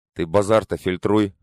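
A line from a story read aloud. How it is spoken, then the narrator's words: Scoffing bandit. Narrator (Russian): хмыкнул бандит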